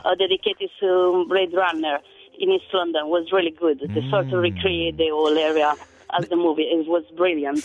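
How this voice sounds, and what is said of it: Italian accent. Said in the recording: “I love listening to your accent ... The Italian accent”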